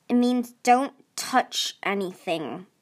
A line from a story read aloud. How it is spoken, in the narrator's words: Marcia said grimly